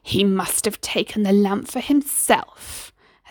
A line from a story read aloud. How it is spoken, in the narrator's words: Hassan hissed furiously